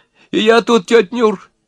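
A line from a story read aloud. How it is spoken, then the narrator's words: Giggling, wizened man. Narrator (Russian): хихикнул сухонький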